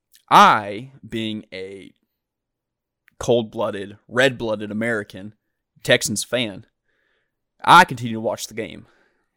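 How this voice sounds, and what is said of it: Put-on Texan accent. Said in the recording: “that's the end of the Texan accent.”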